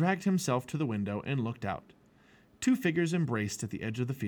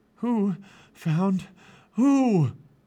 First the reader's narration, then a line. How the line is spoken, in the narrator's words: said Jack, panting